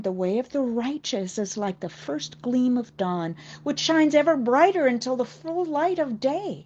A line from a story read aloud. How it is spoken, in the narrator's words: his son Solomon exclaimed